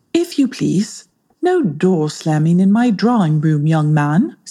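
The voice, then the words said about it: Woman's voice, English accent. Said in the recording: “a woman's voice in an English accent”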